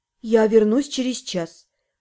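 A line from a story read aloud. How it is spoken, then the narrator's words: Muttered curtly. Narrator (Russian): буркнула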